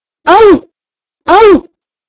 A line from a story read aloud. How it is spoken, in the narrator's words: cried Archie